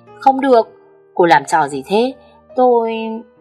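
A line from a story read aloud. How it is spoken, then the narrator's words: Shouting. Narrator (Vietnamese): Anh hét lên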